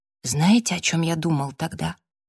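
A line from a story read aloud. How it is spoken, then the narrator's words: Whisper. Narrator (Russian): прошептал Джастин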